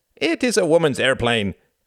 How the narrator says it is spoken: cried

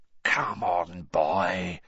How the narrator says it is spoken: whispered Moody

